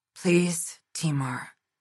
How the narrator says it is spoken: she whispered, dread coating her throat

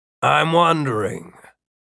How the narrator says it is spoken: Runciter said

